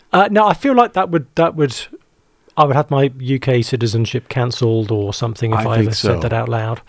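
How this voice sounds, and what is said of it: British English accent. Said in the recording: “Judging by the accent, you're not from around here ... I don't know if you can say y'all with a British accent”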